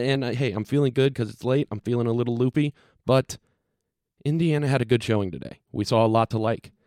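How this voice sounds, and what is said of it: Usual voice. Nothing is said of it.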